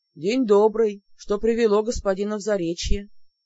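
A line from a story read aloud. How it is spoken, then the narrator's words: Deep bass voice. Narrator (Russian): густым басом спросил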